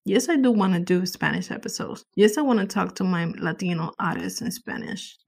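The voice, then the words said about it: Non-native English accent. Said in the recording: “My English is not perfect. I do have an accent”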